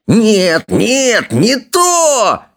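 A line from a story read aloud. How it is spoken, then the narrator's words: Shrill squeal. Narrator (Russian): визжал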